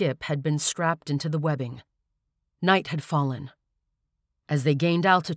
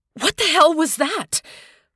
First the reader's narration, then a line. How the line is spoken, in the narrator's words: Corey cried in horror